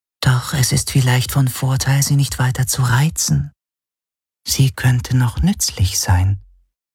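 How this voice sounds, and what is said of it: Whispering voice. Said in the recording (German): “hörte er die Schattenhelix flüstern”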